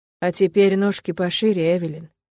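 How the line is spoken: Stern. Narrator (Russian): Строго произносит Фил

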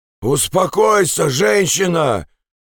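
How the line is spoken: Shout from a distance. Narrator (Russian): крикнул Ансельма с дороги

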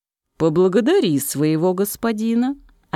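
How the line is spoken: Plain. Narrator (Russian): ответил король

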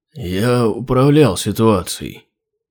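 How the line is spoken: Sluggish mumble. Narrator (Russian): вяло пробормотал Хродрунг

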